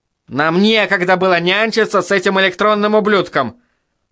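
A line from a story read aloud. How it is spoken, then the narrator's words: Snapping retort. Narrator (Russian): огрызнулся Горин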